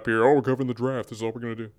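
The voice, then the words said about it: Imitates another person's voice. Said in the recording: “that your Wes impersonation? ... Slightly. I mean, close enough.”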